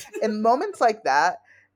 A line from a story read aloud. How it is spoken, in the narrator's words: I laughed